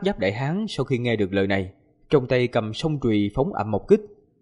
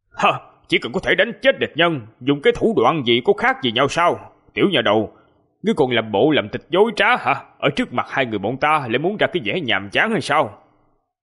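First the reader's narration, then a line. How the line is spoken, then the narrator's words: Shocked loud shout. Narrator (Vietnamese): Ngân Quang tiên tử kinh sợ, hít sâu một hơi, cuối cùng quát lớn rồi nói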